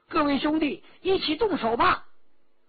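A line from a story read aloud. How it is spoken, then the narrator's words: Shouting. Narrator (Chinese): 陈家洛 喊着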